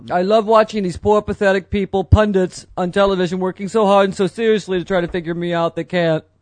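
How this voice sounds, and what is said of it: Imitates another person's voice. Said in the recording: “your Trump impression is getting better ... better.”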